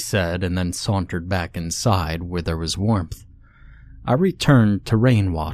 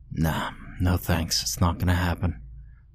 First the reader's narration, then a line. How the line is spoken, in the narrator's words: I whispered to the precipitation ghosts